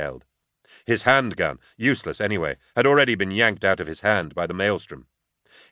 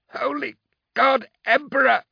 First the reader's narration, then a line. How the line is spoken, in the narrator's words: Carl shrieked in agony